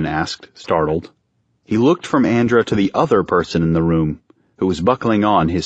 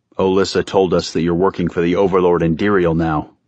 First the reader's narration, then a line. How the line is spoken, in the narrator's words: Erastes said, his voice as flat as ever